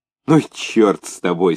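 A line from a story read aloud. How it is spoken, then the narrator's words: Knowing laughter. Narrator (Russian): смеялся, все поняв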